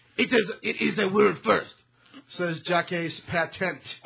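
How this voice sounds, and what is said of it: Put-on French accent. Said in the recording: “Now I have to go into ... a French-speaking accent.”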